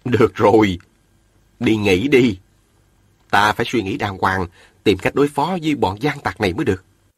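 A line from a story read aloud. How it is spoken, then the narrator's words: Smiling. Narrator (Vietnamese): Viên Thừa Chí mỉm cười, nói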